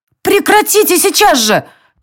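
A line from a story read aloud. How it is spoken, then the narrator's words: Shout. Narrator (Russian): закричала Ая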